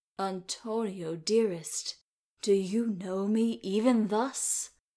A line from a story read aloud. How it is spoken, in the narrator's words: Viola could be heard to murmur